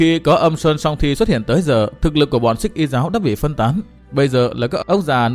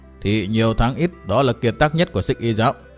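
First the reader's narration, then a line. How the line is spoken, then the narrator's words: Muttering to himself. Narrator (Vietnamese): lẩm bẩm tự nói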